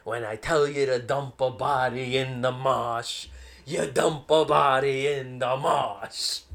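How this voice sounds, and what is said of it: Jack Nicholson-style Boston mob accent. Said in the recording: “Jack Nicholson as a fucking mob boss? An Irish mob boss? ... Everyone trying their best Boston accent.”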